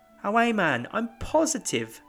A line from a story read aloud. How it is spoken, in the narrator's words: Mary exclaimed emphatically